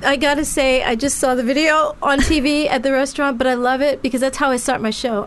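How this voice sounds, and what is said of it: Convincing English accent. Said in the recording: “Your English accent is the best thing I've ever heard. ... your accent is amazing. ... More English than me.”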